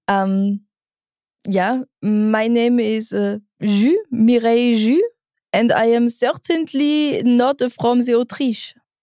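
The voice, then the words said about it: English with a put-on French accent. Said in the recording (German): “mit französischem Akzent Englisch sprichst. ... Kannst du das mal probieren?”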